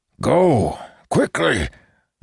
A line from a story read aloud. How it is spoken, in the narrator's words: the elder said through gritted teeth